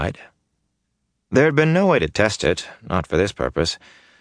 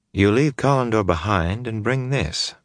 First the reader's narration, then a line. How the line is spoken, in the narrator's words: Moraine murmured